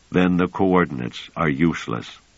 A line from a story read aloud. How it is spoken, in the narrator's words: Pellerat said in a woebegone tone